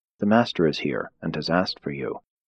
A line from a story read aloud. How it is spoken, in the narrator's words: whispering to her sister, said